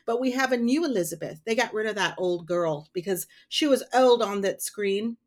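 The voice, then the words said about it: Old-timey put-on accent. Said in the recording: “Was I doing a good old-timey accent?”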